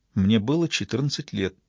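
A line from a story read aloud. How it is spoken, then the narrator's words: Quiet. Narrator (Russian): тихо проговорила она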